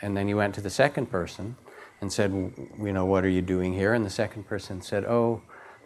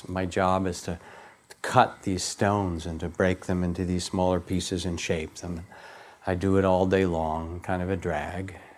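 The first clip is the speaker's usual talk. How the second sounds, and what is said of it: Really weary voice. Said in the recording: “in a really weary voice”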